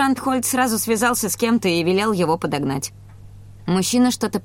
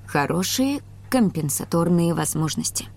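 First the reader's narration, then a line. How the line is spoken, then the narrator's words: Thoughtful mutter. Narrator (Russian): задумчиво пробормотал доктор Ланге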